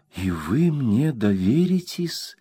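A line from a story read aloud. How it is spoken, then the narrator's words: Quiet, surprised question. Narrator (Russian): тихо и удивленно спросила она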